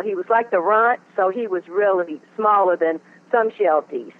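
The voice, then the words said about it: Southern American accent. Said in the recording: “you're sounding like you got more of a Louisiana accent than a Cleveland accent ... I'm from the South, North Carolina ... That's not a Cleveland accent.”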